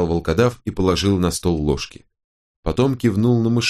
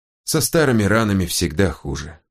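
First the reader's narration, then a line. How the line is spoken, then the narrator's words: Sigh. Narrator (Russian): вздохнул Тилорн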